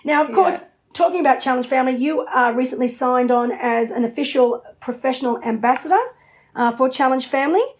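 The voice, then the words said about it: Hoarse, failing voice. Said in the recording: “Excuse me, my voice is going.”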